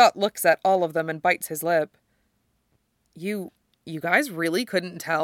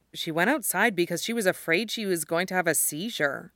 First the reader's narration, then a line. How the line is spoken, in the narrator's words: Scott says